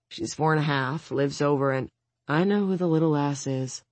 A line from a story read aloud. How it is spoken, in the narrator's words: Ramona says gloomily